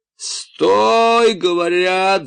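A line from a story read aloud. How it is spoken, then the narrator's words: Yelling. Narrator (Russian): заорал штурмовик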